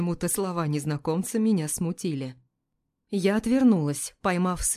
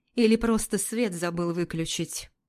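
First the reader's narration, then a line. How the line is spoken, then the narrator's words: Gloomy retort. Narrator (Russian): Мрачно парировала Регина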